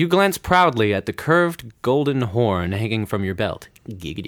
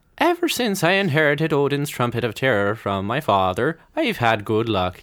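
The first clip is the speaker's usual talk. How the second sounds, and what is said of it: Put-on Irish accent. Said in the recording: “Yeah, that is Irish. That's straight up Irish.”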